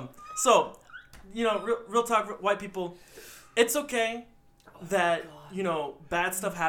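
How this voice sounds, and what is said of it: Usual voice. Nothing is said of it.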